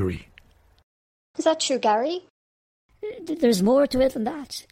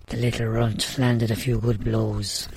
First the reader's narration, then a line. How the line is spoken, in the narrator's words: he muttered